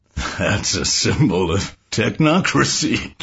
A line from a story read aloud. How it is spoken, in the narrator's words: Joe said, giggling